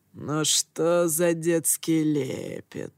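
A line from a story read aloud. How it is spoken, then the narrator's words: Mocking growl. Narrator (Russian): С издевкой прорычал я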